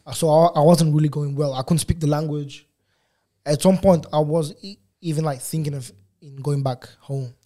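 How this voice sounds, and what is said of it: Non-native English accent. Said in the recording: “you can see by my accent that my English is at this, this age is still not the best in terms of my accent.”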